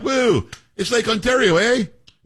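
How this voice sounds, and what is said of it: Canadian-accented Doug Ford impression. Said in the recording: “that's a spot-on impersonation of this guy, Ford, wow, who's like the premier or whatever of Ontario”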